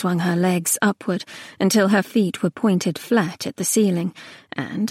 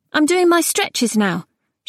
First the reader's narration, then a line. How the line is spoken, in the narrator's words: she announced hastily